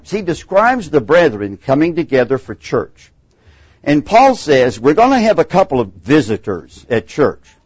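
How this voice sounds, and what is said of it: Texan accent. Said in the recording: “My accent may betray I'm a Texan”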